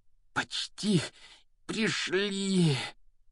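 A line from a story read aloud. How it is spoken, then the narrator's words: Heavy breathless exhale. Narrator (Russian): Тяжело выдохнул Гарри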